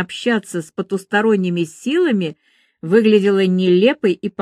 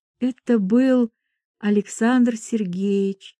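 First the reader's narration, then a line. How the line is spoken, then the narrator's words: Quiet. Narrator (Russian): тихо сказала она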